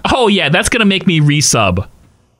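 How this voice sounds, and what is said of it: Sarcastic voice. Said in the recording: “sarcasm, hashtag it. ... you're supposed to use a sarcastic voice ... It was actually a pretty good impression, too.”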